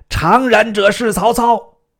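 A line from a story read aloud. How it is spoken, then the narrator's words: Shouting. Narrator (Chinese): 大叫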